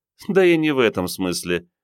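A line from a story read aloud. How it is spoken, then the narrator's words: Giggling. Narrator (Russian): психолог хихикнула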